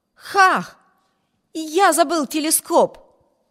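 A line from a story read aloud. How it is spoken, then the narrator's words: Exclaiming. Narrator (Russian): воскликнул Виберт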